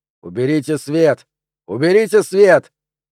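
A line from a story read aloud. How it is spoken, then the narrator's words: Shouting. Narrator (Russian): кто-то закричал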